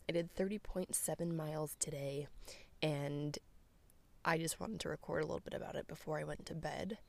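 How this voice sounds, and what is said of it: Tired-sounding voice. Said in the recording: “You can probably hear it in my voice. I'm pretty tired.”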